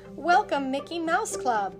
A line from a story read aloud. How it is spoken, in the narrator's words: they said